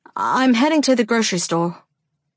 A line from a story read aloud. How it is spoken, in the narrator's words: I blurt